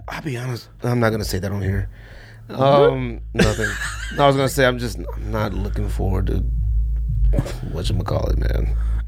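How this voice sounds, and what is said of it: Hoarse, strained, nearly lost voice. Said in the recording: “My voice is still gone.”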